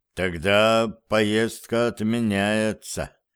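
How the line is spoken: Slow, through clenched teeth. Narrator (Russian): медленно процедил он

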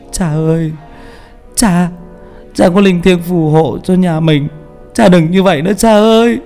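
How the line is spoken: Frightened, whimpering child. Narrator (Vietnamese): Nam thì khác, nó sợ quan tài của bố mình đổ xuống, mếu máo

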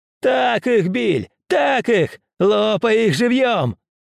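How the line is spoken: Woman shouting. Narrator (Russian): какая-то женщина на тротуаре закричала

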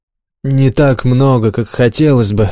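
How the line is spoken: Sighing. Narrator (Russian): вздохнул Олег

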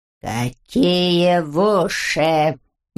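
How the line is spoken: Puzzled growl. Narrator (Russian): недоумевающе прорычал Лигул

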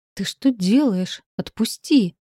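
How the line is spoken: Indignant exclamation. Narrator (Russian): С возмущением воскликнула Света

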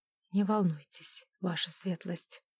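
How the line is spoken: Quiet. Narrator (Russian): тихо сказал он

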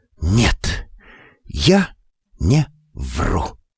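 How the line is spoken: Breathed out. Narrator (Russian): как выдохнула

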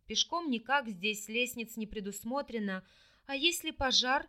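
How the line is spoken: Hoarse, exhausted, terrified. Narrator (Russian): просипела я из последних сил, чувствуя, как спиральки волос на голове шевелятся от ужаса

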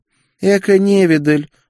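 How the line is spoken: Snorted. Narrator (Russian): фыркнула Гертруда

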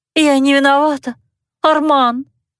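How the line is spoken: Moaning. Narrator (Russian): стонала она

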